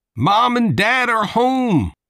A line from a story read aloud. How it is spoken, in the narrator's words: Mike shouted